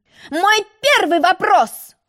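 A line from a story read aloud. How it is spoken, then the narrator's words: Shouted. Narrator (Russian): кричал Желток-Белток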